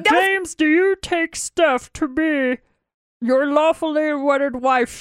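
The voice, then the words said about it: Bad Yoda impression, Kermit-like. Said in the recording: “It is so bad. I used to be really good at Yoda. Now it sounds more like Kermit the Frog when I do it. It's so bad.”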